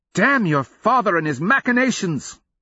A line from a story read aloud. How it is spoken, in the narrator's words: she cried, her voice loud enough to draw looks from nearby Polarian guardsmen